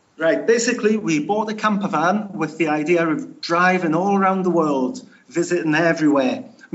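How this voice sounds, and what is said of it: Strong distinctive British regional accent. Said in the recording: “I have a terrible accent ... You have a cool accent, man. It definitely has a lot of character”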